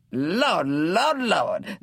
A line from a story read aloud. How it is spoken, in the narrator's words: that same Charlie Jones exclaims